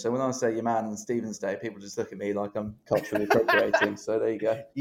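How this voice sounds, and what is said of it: English accent. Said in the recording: “as you can tell by my accent, very much English”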